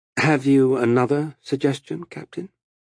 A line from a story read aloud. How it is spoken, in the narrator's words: Amos sighed